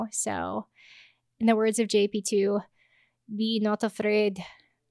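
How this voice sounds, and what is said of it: Put-on Polish accent. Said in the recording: “I got to dust off my Polish accent ... I could totally see the experience of Europe coming out there”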